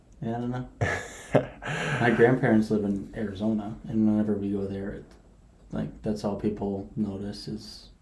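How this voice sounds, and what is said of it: Strong Minnesotan accent. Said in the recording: “I love how Minnesotan your accent is. ... it's just very Minnesotan.”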